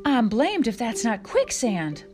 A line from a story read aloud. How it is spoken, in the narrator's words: Paw gasped